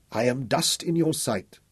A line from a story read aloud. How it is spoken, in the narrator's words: Al-Auf whimpered